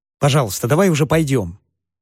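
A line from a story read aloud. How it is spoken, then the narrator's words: Strained calm, polite request. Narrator (Russian): прошу я, изо всех сил стараясь говорить спокойно и вежливо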